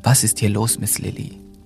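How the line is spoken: Firm, stern tone. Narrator (German): der Tonfall ließ keinen Raum für Unsicherheiten

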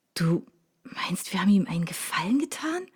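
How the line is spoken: Whispered, almost convinced. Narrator (German): flüsterte ich schon fast überzeugt

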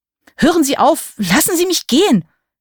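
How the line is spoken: Scream. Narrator (German): schrie

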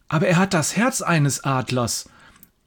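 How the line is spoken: Horrified shout. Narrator (German): ruft der Biologiestudent ... entsetzt

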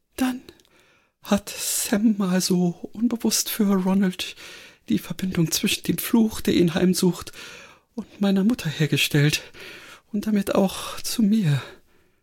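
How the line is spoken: Thin-voiced reply. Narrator (German): Granny antwortete mit dünner Stimme

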